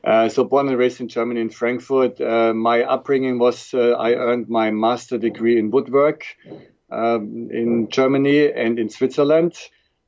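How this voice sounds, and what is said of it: Strong German accent, fast speech. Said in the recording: “born and raised in Germany, so I do have a very strong accent... I talk like all the Germans very, very fast”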